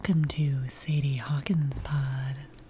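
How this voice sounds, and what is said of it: Creepy Halloween-style voice. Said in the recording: “your Halloween creepy voice, your creepy nice voice”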